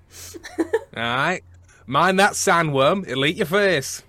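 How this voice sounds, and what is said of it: Put-on Brummie English accent. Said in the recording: “West Country Dune... No, that's not even West Country... That's Brummy.”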